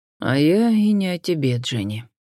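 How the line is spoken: Sad chuckle. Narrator (Russian): грустно усмехнулся инспектор Ллойд

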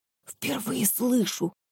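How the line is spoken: Whispering. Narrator (Russian): снова зашептала Геля Виктору

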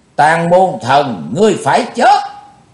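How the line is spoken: Shouted. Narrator (Vietnamese): theo tiếng hét

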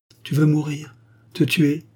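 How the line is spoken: Actress exclaiming. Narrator (French): s'écria l'actrice

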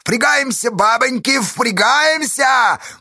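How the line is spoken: Cheerful shout. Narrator (Russian): бодро кричал Кафтаныч

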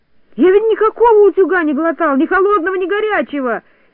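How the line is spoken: Shouting. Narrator (Russian): кричал торопышка

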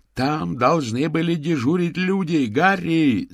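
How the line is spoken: Shouting. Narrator (Russian): закричал Мокриц

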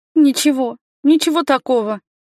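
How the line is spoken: Soothing, sobbing. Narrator (Russian): успокоила я и всхлипнула

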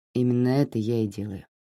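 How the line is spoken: Quiet. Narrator (Russian): тихо проговорил он

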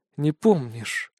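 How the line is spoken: Quiet. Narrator (Russian): тихо произносит Ауле

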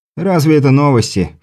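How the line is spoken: Poet's snort. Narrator (Russian): фыркнул поэт

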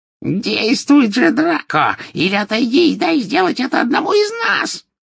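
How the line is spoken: Shrill shriek. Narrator (Russian): визгливо вскрикнула колдунья

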